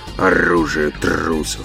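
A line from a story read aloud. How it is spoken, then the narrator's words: Mutter. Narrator (Russian): пробормотал Оттор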